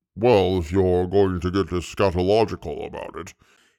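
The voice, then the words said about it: Very deep murmuring voice. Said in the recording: “he murmured in a voice deep enough to rattle walls”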